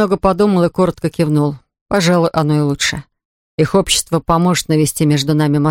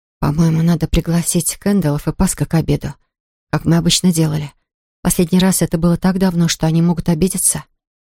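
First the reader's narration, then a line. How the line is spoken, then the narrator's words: Quiet. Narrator (Russian): Рэйчел тихо проговорила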